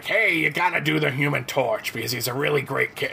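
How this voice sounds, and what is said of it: Poor imitation of another person's voice. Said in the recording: “That was the worst Stanley impersonation ever. I apologize.”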